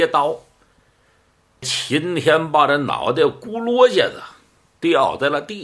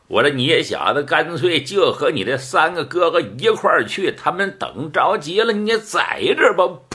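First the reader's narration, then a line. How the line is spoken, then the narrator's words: Joking. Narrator (Chinese): 徐明高开了句玩笑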